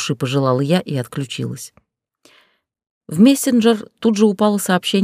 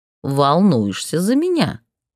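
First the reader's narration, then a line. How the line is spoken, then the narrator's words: Snide drawl. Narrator (Russian): Он протянул это так ехидно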